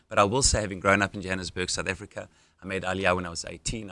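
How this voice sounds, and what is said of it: South African accent. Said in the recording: “I know not all Americans can readily identify whether this is an English, South African, Australian accent, but it's a South African accent.”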